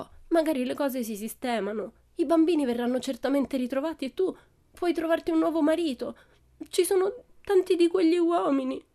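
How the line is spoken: Sobbing. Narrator (Italian): continuò tra i singhiozzi

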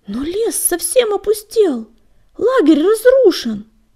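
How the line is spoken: Exclaiming. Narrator (Russian): воскликнул Крутобок

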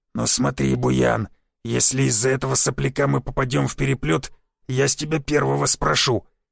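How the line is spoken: Angry growl. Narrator (Russian): зарычал амбал, густо покраснев

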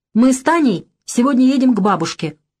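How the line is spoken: Loud. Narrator (Russian): громко сказала

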